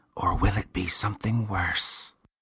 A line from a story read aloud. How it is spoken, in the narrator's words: The boy leaned near Worgly's ear and whispered